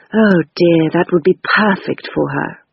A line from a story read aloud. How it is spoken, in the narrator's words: sighed Topaz